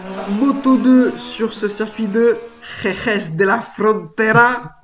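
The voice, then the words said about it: Put-on Spanish accent. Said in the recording (French): “On adore mon accent espagnol.”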